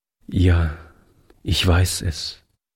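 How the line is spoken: Sad young man's reply. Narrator (German): entgegnete der junge Mann traurig

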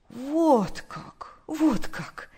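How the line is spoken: Joyful lamenting old woman. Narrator (Russian): радостно улыбаясь, причитала старушка

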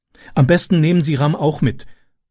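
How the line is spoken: Plain. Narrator (German): sagte sie

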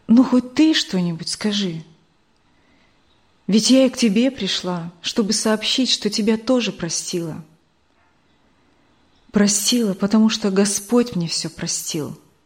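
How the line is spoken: Calm. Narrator (Russian): Мария Николаевна спокойно сказала

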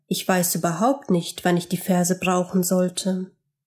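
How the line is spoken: Quiet grumble. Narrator (German): Leise brummte er

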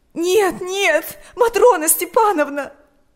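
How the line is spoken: Sobbing. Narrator (Russian): рыдала Ирина

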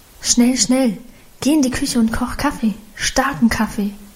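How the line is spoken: Murmured. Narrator (German): raunte sie

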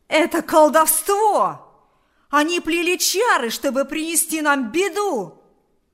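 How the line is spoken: Shouting. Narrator (Russian): закричал Кузька

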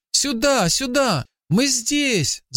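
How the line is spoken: Boy shouting. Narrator (Russian): закричал мальчик

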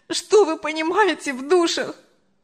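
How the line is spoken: Sobbing. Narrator (Russian): Анжела уже рыдала

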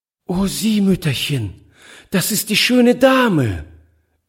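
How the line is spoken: Delighted cry. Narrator (German): rief sie voll Entzücken

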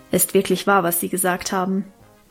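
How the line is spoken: Plain. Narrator (German): sagte sie dann

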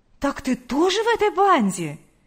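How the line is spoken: Exclaimed. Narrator (Russian): воскликнула Лидия Гавриловна

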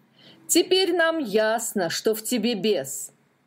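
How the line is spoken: Angry group shouting. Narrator (Russian): гневно закричали они

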